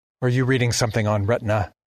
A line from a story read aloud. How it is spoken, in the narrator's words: asked Undine sharply